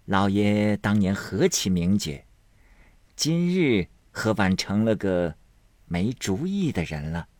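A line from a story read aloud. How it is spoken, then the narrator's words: Laughing. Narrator (Chinese): 门子笑道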